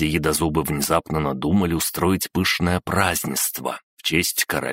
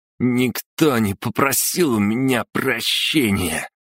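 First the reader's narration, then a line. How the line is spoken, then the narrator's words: Drunken voice. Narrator (Russian): пьяным голосом сообщил он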